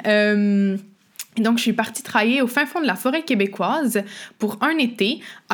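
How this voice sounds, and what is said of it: Québécois French accent. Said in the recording (French): “je suis québécoise, vous l'entendez peut-être avec mon accent”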